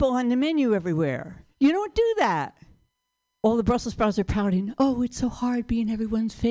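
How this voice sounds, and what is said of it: Usual voice. Nothing is said of it.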